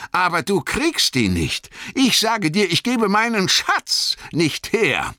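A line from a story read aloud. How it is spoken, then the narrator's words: Calling out. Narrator (German): rief Bilbo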